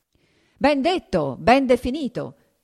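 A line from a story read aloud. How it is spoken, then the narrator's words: Diners shouting in unison. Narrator (Italian): gridarono a una voce i commensali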